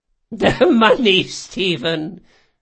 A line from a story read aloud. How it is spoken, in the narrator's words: she chuckled